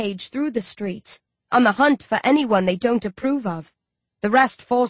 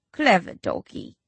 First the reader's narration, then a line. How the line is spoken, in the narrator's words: Owlman murmurs